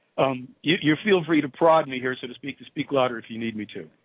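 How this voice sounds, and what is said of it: Slightly hoarse voice. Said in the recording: “I'm just maybe a little bit hoarse ... I'm just a little in the throat, a little hoarse.”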